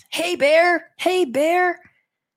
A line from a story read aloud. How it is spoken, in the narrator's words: yell at the top of my lungs